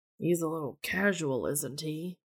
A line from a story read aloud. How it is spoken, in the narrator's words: Dean mutters